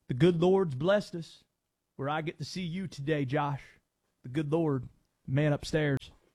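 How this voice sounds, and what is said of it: Dabo Swinney impression. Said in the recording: “Dabo impressions ... best Dabo impression I've ever heard”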